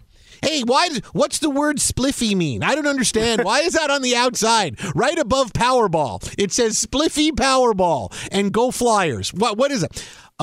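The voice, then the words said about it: Put-on Philadelphia accent. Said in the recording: “That's a great DC accent you got there ... No, no, it's very Philadelphia.”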